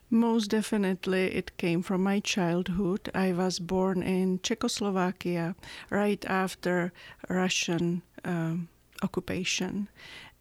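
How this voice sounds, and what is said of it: European accent in English. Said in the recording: “We know that you have a beautiful accent. ... your roots in Europe”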